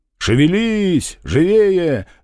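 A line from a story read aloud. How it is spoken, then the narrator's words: Loud resonant shout. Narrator (Russian): звучно крикнул он вниз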